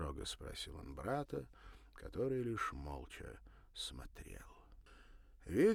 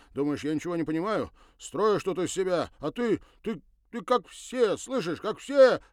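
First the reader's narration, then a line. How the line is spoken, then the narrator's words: Desperate shout. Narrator (Russian): отчаянно выкрикнул он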